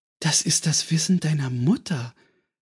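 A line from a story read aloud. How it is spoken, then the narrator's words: Gentle remark. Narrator (German): bemerkte Antonia sanft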